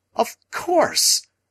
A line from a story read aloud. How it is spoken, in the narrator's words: I cried again